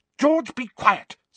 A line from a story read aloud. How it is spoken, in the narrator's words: snapped Mrs